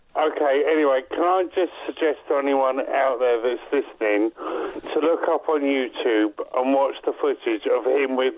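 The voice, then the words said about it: Hoarse, failing voice sounding older. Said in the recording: “You sound like you're, you're um, like 50 years older than you were... losing my voice”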